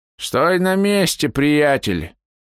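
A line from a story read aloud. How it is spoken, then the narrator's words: Toothless mumble from darkness. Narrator (Russian): раздался шамкающий голос из темноты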